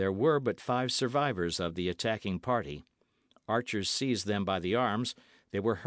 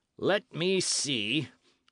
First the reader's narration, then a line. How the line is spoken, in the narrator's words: he continued in the same sneering and cruel tones